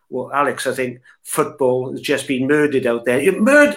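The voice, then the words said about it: Poor put-on American accent. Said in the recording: “That's in my worst American accent. ... In your Colombo accent”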